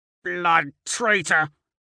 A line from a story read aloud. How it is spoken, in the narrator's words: snarls